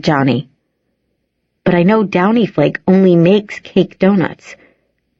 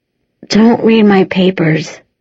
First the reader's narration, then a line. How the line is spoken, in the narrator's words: I moan